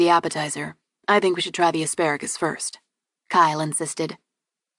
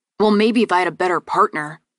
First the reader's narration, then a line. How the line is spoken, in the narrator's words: Burke snapped